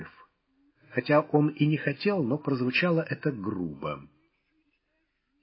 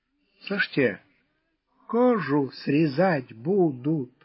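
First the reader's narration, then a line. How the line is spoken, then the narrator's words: Hoarse woman's voice. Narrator (Russian): сипло произнесла женщина с креста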